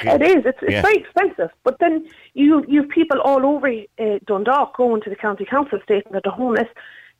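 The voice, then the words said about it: Irish traveller accent. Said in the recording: “I'm trying to figure out where your accent comes from, but it's not Dundalk ... I'm an Irish traveller ... So that's where the accent's from.”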